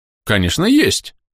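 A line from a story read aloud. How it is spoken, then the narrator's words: Cheerful. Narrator (Russian): бодро ответил торговец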